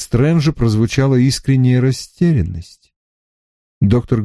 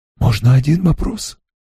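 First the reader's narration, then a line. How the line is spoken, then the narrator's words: Whisper. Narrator (Russian): прошептал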